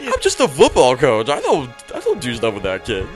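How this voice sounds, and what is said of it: Imitates another person's voice, weird-sounding. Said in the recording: “a Jerry Sandusky impression ... I don't even know if, like, that's his, like, voice ... that guy kind of sounds weird”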